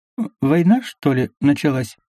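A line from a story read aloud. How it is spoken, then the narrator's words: Uncertain mutter. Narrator (Russian): неуверенно буркнул Бублик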